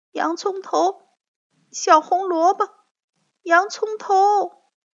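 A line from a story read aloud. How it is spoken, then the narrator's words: Sick child crying out. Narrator (Chinese): 小樱桃的病越来越厉害，她总是一边哭一边叫着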